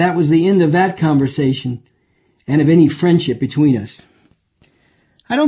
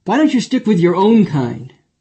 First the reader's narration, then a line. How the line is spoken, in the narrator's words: he blurted out